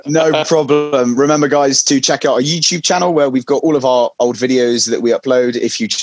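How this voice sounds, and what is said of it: Usual voice. Nothing is said of it.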